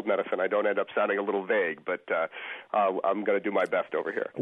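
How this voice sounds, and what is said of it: Froggy voice from a cold. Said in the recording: “I've got a little bit of a cold, ... I sound a little froggy”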